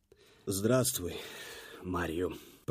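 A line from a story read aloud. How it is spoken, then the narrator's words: Muttered, male. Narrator (Russian): пробормотал он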